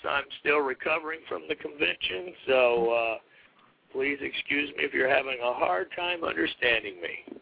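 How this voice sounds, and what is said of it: Hoarse, scratchy voice. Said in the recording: “As people can hear, I'm a little hoarse ... scratchy throats”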